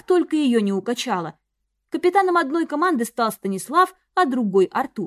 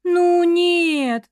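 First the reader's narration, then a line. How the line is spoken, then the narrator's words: Drawled. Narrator (Russian): протянула я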